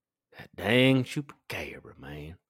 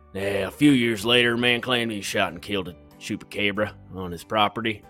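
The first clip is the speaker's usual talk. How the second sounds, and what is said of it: Put-on Texas accent. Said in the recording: “I'm going to go with the Texas accent”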